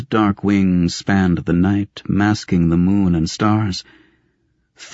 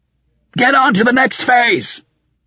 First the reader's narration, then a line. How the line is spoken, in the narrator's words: he shouted at the scarred men